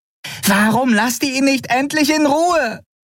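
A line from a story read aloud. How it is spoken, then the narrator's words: Shouting woman, from cage. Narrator (German): schrie Nelen in ihrem Käfig die Weißmäntel an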